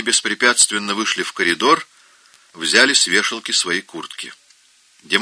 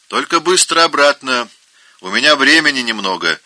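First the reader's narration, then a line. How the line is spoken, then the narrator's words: Shout after them. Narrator (Russian): крикнул им вслед инспектор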